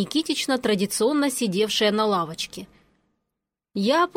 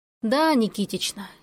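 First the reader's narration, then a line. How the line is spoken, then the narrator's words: Heavy sigh. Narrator (Russian): я тяжело вздохнула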